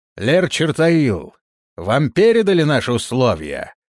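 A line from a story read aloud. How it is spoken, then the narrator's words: Shouting. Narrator (Russian): крикнул лер Монруил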